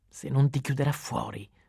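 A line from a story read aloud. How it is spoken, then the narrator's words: Hoarse voice. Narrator (Italian): disse Peter con voce rauca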